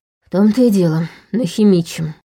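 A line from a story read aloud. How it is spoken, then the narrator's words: Sighing. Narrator (Russian): вздохнула Саша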